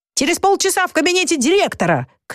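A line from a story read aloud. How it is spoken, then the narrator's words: Shouted after someone. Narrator (Russian): крикнул ему в спину Щепка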